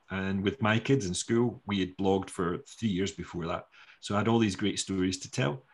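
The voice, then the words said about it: Non-American English accent. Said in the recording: “people were more distracted by my accent. A whole bunch of Americans basically in the room were distracted by my accent”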